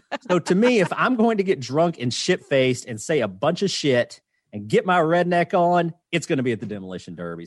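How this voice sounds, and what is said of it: Kentucky Southern US accent. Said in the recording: “I can hear the Kentucky... my accent”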